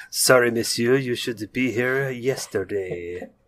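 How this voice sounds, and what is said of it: Exaggerated comic French accent. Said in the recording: “every time you do a French accent, it's obviously Inspector Clouseau ... Doesn't everybody in France talk like Peter Sellers?”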